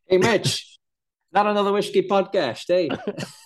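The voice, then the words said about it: Attempted Dutch accent, sounds Canadian. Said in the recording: “I should do the introduction with a Dutch accent ... Sound Canadian.”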